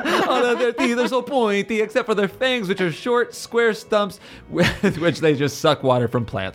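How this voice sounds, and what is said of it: Put-on Dracula vampire accent. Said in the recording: “a reverse Dracula. Still doing the accent.”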